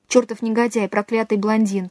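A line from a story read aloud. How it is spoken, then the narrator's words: Half-spoken thought, suppressed sobs. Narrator (Russian): подумала она, почти произнесла, давя поднимавшиеся в груди рыдания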